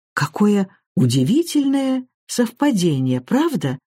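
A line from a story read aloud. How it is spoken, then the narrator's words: Exclaimed. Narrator (Russian): воскликнула Гвенда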